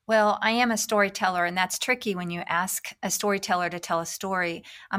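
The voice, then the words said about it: Slight Southern American accent. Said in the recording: “I can detect a bit of a southern accent in there”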